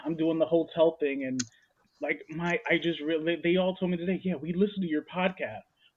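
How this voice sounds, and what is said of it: New York accent. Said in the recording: “my coworkers are gonna roast me for my New York accent”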